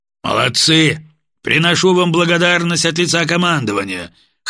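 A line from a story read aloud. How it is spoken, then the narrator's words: Booming commanding voice. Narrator (Russian): хорошо поставленным командирским голосом пророкотал Владимир Петрович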